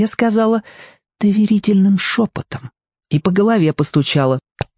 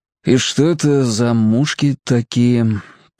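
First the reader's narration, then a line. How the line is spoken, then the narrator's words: Sad question. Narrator (Russian): печально спросил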